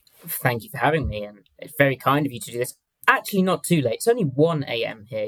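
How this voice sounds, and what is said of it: Southern English accent. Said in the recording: “I'll be giving you a southern English accent”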